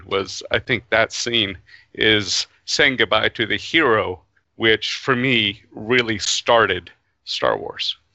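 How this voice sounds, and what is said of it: Emotional, choked-up voice. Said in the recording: “I can hear you getting all emotional.”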